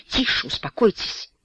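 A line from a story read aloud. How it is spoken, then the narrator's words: Irritated exclamation. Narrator (Russian): раздраженно восклицает индус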